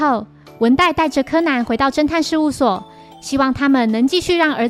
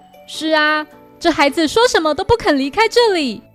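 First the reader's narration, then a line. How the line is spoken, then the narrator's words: Wry, rueful. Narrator (Chinese): 文代苦笑着表示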